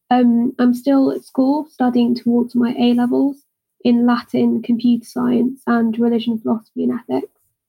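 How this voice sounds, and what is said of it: British English accent. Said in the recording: “if you couldn't already tell by my accent, I'm British.”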